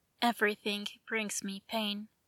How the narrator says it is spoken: he whispered

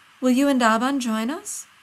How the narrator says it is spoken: Ani says brightly

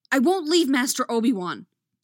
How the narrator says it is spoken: Anakin snaps

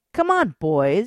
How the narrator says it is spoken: she taunted

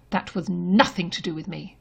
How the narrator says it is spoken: Thomas snaps

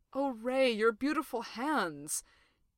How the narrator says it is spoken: with his mouth nuzzling into Ray's feathers, he moans

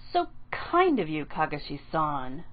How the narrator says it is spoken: Aruka said dryly

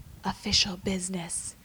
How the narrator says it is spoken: finishes in a stage whisper

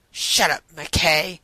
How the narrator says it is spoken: the man snapped back

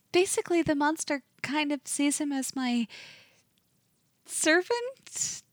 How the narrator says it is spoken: She giggles a little self-consciously

